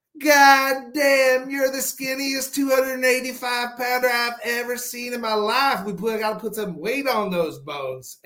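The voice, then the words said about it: Strong Mississippi Southern accent. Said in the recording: “is originally from Mississippi, but he's got a very strong accent”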